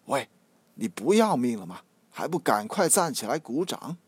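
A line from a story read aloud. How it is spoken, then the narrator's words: Low voice. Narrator (Chinese): 小声的说道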